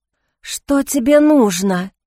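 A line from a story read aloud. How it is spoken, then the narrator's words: Frightened hoarse rasp. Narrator (Russian): прохрипела Джейн, не сводя испуганных глаз с призрака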